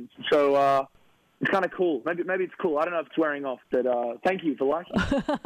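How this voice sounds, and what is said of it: Australian accent. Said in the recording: “Oh, man, that accent. ... because I'm obviously from Australia”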